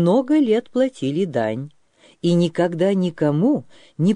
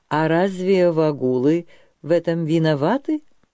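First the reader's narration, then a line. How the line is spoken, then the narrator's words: Calm. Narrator (Russian): спокойно отвечал княжич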